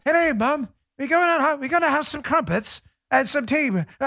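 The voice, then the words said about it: Poor imitation British accent. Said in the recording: “British accents ... I get my accent is bad.”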